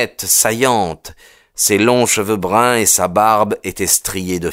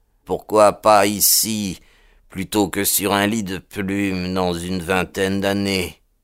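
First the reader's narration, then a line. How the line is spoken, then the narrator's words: Murmur. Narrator (French): murmura-t-il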